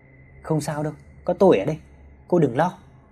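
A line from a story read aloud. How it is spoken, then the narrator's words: Comforting. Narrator (Vietnamese): Hào an ủi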